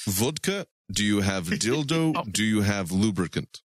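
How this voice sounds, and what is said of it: Put-on Russian accent. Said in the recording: “I can't keep the Russian accent.”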